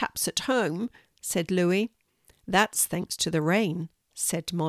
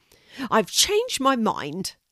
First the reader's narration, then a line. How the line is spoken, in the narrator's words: Louis snapped